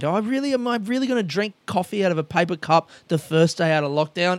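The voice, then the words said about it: Loud, excited yelling. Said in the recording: “Why am I yelling? Why am I yelling so much today? I'm excited.”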